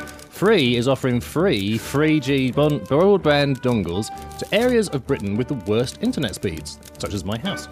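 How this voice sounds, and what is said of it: South East London accent. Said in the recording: “this is a very bad thing for somebody with a South East London accent to say”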